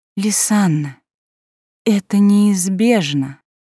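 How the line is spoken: Tired sigh. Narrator (Russian): как-то устало вздохнула Илана

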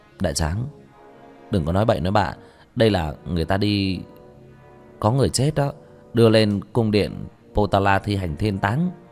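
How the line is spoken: Soft, sighing. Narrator (Vietnamese): Sương Sườn thở dài một tiếng nhẹ giọng

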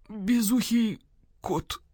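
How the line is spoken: Weak voice. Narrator (Russian): слабым голосом произнес Сыч

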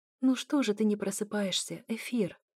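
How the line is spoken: Whispered. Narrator (Russian): шепнула

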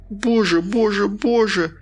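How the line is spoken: Muffled sob. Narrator (Russian): закрыв лицо руками, всхлипнула она

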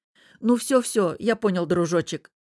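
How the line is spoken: Stammering. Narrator (Russian): заикаясь, проговорил брат

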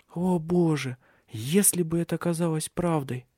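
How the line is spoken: Whisper. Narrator (Russian): прошептала ее невестка

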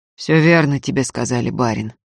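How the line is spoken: Gloomy reply. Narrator (Russian): мрачно отозвался Антип

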